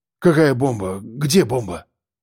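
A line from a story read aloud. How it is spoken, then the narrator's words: Sleepy mumble. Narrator (Russian): Пробормотал, не до конца проснувшись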